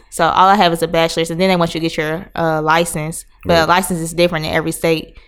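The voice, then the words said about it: Slight Southern American accent. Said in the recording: “I see you picked up like a little southern accent. I hear it when you talk a little.”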